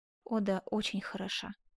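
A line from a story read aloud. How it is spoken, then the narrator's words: Muttered. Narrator (Russian): пробормотал Асканио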